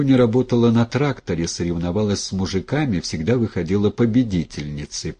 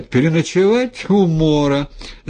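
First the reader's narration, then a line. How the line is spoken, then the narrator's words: Laughing loudly, from indoors. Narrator (Russian): Захохотала в избе Груня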